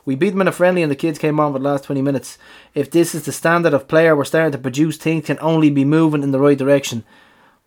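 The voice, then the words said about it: Imitates another person's accent. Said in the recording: “I'm trying to do his accent.”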